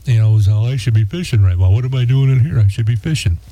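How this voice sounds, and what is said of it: Imitates another person's voice. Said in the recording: “impersonating you as a good impersonation.”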